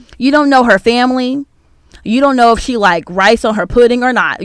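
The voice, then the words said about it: Yelling, raised voice. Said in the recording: “I'm yelling”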